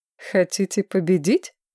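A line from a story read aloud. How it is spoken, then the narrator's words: Laughing. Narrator (Russian): Маргарет рассмеялась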